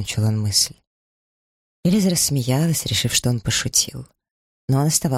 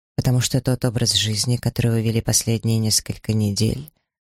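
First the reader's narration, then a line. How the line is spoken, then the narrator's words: Even-voiced reply. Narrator (Russian): ровным голосом ответил Сомерсет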